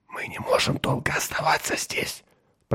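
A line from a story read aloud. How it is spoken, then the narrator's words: Whisper. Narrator (Russian): прошептал Меррик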